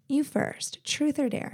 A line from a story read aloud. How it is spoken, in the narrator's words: she asked me